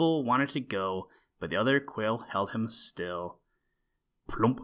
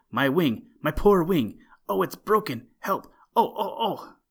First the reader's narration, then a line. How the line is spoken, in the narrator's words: he cried